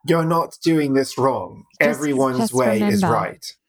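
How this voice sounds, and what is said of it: Weak attempt at British accent. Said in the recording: “the wonderful British guy who started Headspace ... wonderful sounding gentleman ... He might be Australian ... No, I'm not good at that accent.”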